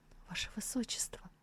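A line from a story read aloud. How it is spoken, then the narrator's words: Crying whisper. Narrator (Russian): Биншан заплакала и прошептала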